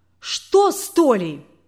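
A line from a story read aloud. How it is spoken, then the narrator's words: Hysterical cry. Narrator (Russian): истерично вскрикнула свекровь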